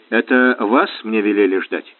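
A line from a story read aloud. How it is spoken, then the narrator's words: Indifferent question. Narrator (Russian): спросил безразличным тоном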